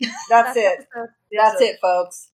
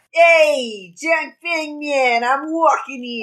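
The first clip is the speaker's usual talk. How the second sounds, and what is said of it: Put-on New York accent. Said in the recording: “they better give the Wen sect New York accents ... Everybody's Joey Wheeler!”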